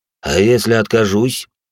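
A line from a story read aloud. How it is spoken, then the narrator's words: Cold question. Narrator (Russian): холодно спросил пламенеподобный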